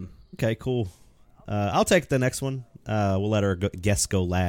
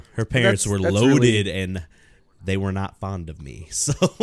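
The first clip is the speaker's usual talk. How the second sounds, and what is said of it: Imitates another person's voice. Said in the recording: “my Ron White impression”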